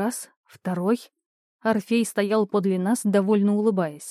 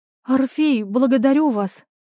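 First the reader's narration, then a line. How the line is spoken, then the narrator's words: Exclaimed. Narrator (Russian): воскликнула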